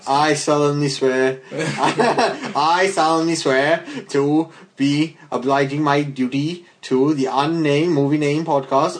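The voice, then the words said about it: Bad put-on accent drifting Indian. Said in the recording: “a really bad accent, kind of turned kind of Indian halfway through.”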